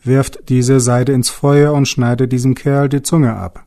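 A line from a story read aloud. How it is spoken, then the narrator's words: Angry shout. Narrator (German): rief er zornig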